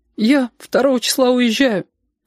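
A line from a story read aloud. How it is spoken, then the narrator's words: Thin plaintive voice. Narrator (Russian): сказала, и сама поразилась, как тонко и жалобно прозвучал ее голос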